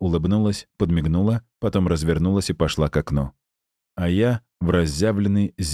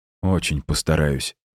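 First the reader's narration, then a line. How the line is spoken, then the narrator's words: Mumbled. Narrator (Russian): пробормотал я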